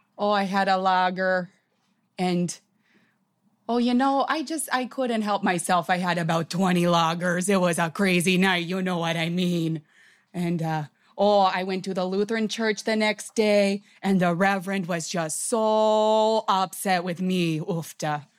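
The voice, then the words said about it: Put-on Minnesota Midwest accent. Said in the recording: “the Minnesota, Wisconsin accent, it's just a lot of sounds ... a lot of, like, cawing noises ... the Midwest accent”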